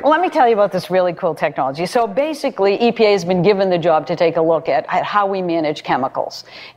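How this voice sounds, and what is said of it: Boston accent. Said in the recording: “your Boston accent”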